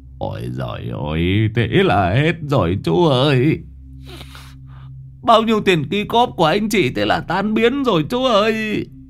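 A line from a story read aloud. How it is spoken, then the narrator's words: Grieving, near tears. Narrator (Vietnamese): Ông Tùng xót tiền, mếu máo như muốn khóc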